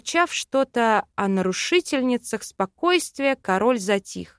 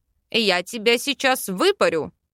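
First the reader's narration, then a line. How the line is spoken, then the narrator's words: Sleepy king barking. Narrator (Russian): рявкнул сонный король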